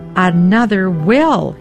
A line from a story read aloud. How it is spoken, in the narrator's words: he shouted